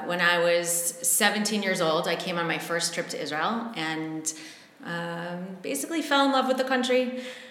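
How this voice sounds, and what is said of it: American accent. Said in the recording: “as you can tell from my accent, I grew up in the United States. I'm from Cleveland, Ohio.”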